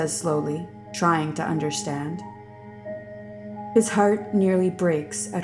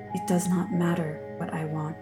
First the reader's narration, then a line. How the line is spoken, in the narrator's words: she says sadly